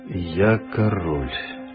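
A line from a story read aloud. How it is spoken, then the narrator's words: Quiet sigh, king. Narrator (Russian): тихо вздохнул король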